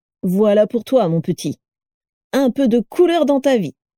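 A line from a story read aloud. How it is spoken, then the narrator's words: Beaming exclamation. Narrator (French): s'exclama Fergus Goyle radieux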